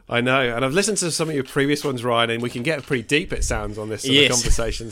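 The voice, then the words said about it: British accent, southwest England. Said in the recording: “you probably can tell from my accent, I'm not from New Zealand. I'm from the UK, down from Devon, which is the southwest of the UK”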